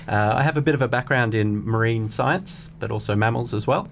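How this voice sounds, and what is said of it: Australian accent. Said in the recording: “I'm Australian, as it might be able to detect in my accent.”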